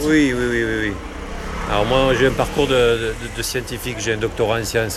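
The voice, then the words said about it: Southwestern French regional accent. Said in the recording (French): “originaire du sud-ouest ... vous avez l'accent que j'ai ... « Ah, un touriste !»”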